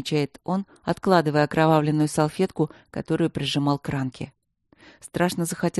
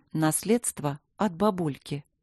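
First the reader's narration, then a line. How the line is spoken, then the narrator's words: Calm. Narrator (Russian): спокойно говорит Симонова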